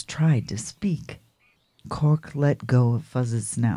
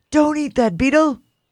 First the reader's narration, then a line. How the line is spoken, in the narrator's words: Cork yelled